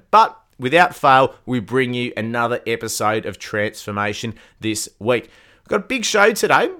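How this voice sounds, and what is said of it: Voice off from a cold. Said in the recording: “My voice is a little bit off. I am battling a cold at the moment.”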